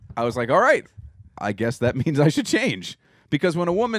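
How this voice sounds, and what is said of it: Usual voice. Nothing is said of it.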